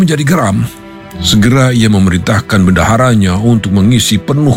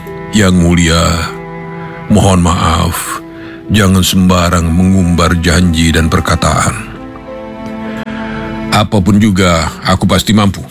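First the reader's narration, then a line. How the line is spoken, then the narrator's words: Calm, smiling answer. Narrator (Indonesian): Si paman menjawab dengan tenang dan senyum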